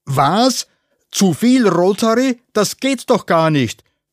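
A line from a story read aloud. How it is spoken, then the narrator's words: Blustering. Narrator (German): polterte Freund Peter Überhitzer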